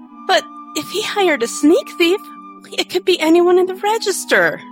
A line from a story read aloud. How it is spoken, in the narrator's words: Chrysanthemum wailed